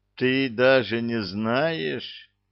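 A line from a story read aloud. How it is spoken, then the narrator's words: Sad sighing cook. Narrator (Russian): грустно вздохнул повар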